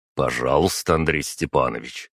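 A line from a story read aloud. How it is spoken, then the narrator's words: Calm. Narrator (Russian): спокойно проговорил я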